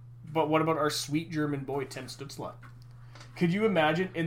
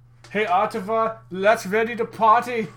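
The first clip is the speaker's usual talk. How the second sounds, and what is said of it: Put-on German accent. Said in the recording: “in that sweet German accent”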